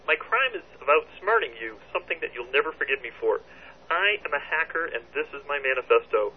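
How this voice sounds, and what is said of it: Kermit the Frog cartoon voice. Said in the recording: “Is Kermit the Frog ... Celebrity Frog impersonated ... Celebrity Frog impersonated very well”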